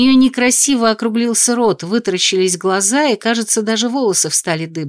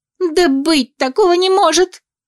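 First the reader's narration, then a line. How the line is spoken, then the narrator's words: Shriek. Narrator (Russian): взвизгнула Лукреция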